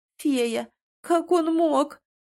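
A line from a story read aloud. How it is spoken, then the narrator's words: Moaning, breaking into sobs. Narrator (Russian): простонала начиная плакать горючими слезами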